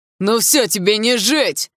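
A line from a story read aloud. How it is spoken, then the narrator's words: Furious yelling young man. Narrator (Russian): В новом приступе бешенства заорал парень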